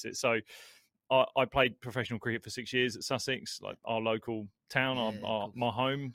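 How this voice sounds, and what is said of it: Australian accent. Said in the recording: “I've got this Australian accent”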